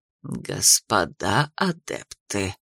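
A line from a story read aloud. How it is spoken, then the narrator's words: Through gritted teeth. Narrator (Russian): процедили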